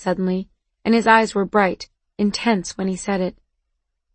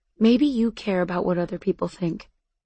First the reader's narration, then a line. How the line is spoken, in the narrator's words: he said, and his voice was softer now